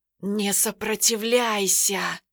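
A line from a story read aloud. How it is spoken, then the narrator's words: Sorcerer's hiss. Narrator (Russian): прошипел колдун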